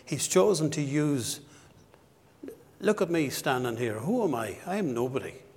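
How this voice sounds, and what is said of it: West of Ireland accent. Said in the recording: “I'm a, from the west of Ireland. I speak with a funny accent”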